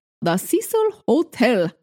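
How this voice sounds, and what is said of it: Put-on Transylvanian-style accent. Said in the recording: “Did it sound like Transylvania? ... Is it Transylvanian? ... Why are we doing the accent?”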